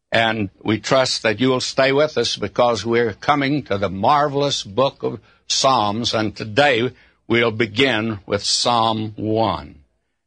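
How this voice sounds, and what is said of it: Speaker's own regional accent. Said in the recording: “A great many folks say they do not like my voice, or my accent”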